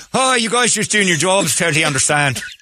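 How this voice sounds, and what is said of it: Put-on Irish accent. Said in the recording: “your Irish accent ... What happened to your voice?”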